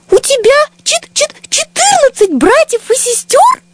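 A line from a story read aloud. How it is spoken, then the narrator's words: Tiny squeak. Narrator (Russian): пропищал комочек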